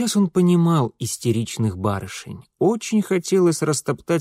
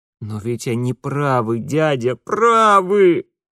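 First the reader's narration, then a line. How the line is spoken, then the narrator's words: Muffled moan. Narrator (Russian): закрывая лицо руками, простонал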